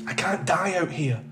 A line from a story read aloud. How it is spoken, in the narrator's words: he whispered to himself